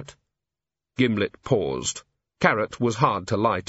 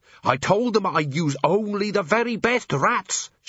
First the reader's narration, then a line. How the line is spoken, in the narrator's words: shouted Gimlet